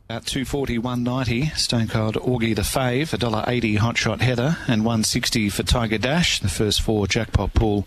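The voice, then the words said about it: Australian English accent. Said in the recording (Spanish): “vamos a empezar escuchando cómo suena el inglés australiano ... acento”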